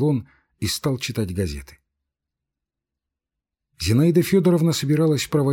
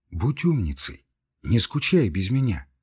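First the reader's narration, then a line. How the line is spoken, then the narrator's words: Tender, warm tone. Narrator (Russian): проговорил он ласковым, сердечным тоном, который и меня тронул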